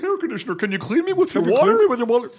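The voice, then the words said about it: Duck-like character voice. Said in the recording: “talks like a duck bill”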